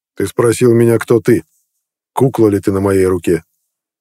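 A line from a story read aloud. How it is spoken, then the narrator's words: Cold, steady speech. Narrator (Russian): Все так же холодно заговорил Нед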